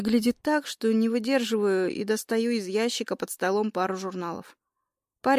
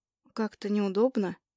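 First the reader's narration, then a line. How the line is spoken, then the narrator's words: Mumbling. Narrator (Russian): мямлю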